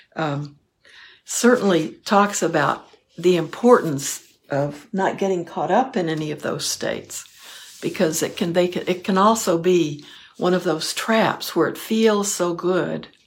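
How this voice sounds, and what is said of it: Strained, failing hoarse voice. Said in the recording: “I'm losing my voice”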